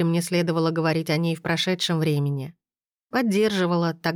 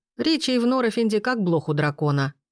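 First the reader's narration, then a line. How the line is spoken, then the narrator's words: Wry snort. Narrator (Russian): хмыкнул Бенедикт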